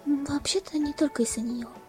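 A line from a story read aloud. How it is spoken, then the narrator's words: Calm mutter. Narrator (Russian): Спокойным голосом пробормотала Твайлайт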